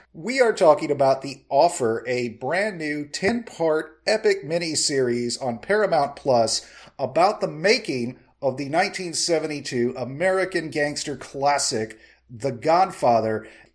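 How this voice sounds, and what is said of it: Strained, failing voice. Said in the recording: “Excuse me, guys. Oh, man. I was just waiting for my meds to kick in. Fast-acting allergy relief my ass. ... my voice may be going”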